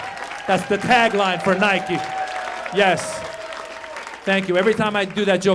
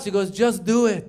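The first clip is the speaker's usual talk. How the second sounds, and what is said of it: Imitated mother's accent. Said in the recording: “my mom had an accent in that joke”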